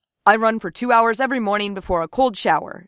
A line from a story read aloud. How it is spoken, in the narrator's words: Shang said